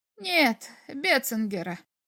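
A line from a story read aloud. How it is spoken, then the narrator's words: Dry reply. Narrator (Russian): ответил Форчик сухо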